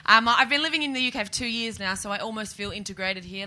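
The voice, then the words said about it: Australian accent. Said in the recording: “sounding a bit Australian.”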